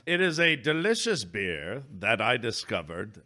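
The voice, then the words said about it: Low, musical Stephen Toast impression. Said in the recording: “I don't know why I'm talking like this... good Stephen Toast impression... Matt Berry has a very low and musical timbre, yes, that he then accents with extra syllables”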